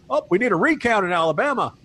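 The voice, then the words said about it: Put-on Southern US accent. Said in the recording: “Even I'm doing a Southern accent now.”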